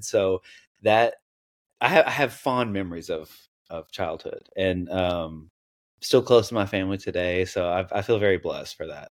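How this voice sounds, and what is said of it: Southern US accent. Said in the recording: “I was wondering where your accent came from ... I spent a lot of time like in the South ... that's not a Washington accent ... every now and then people can pick up on it”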